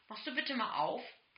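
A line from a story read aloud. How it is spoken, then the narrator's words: Grumbled. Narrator (German): brummte Nemos Vater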